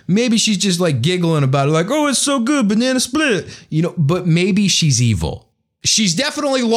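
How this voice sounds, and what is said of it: Usual voice. Nothing is said of it.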